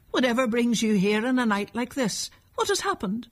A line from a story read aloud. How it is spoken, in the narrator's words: cried